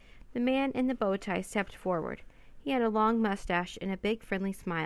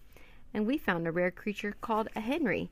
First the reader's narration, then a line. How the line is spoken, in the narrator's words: said Annie, giggling